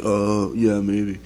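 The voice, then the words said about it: Impression of Matt Saracen. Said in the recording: “That was a very good Saracen impression.”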